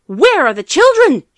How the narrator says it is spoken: shouted

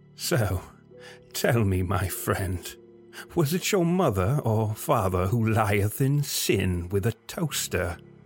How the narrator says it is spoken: Keith taunted, his ensuing laughter becoming a strained wheezing within the thin air

